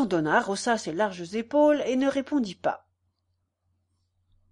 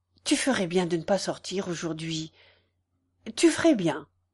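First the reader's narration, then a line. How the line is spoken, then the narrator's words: Slightly trembling voice. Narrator (French): dit-il d'une voix qui tremblait un peu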